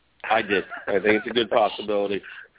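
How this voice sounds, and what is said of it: Al Roker impression. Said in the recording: “his Al Roker impression”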